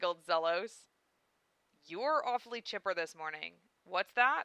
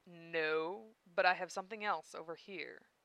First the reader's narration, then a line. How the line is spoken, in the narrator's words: Zelos said in a lowered voice